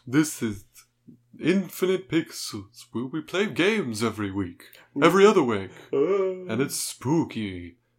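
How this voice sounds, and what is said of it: Spooky Dracula character voice. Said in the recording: “a shitty Dracula voice ... in a Dracula voice”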